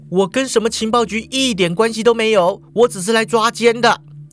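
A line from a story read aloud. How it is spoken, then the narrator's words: Loud. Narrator (Chinese): 淑华就大声说了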